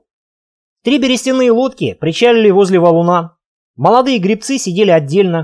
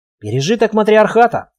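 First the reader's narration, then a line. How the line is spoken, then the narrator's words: Whisper. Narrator (Russian): шепнула Алена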